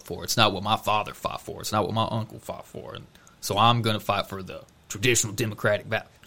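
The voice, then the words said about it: Put-on Southern American accent. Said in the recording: “I don't know why I'm giving him a Southern accent, but... it just felt right.”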